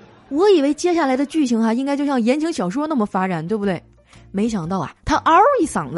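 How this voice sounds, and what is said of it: Usual voice. Nothing is said of it.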